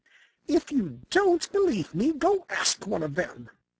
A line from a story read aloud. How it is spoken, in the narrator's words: she snapped